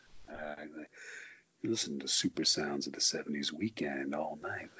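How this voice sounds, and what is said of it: Radio DJ voice. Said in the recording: “I'm gonna get my DJ voice going.”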